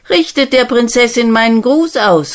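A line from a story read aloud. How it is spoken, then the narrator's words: Called out. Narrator (German): rief er den Mädchen zu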